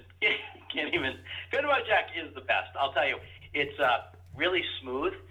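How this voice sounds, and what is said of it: Usual voice. Nothing is said of it.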